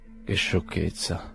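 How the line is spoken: Murmur. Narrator (Italian): mormorò

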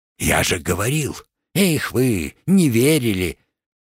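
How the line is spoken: Whispering. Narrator (Russian): Олег шепотом произнес

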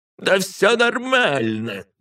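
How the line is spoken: Cheerful shout from below. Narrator (Russian): весело прокричал Гадислав снизу

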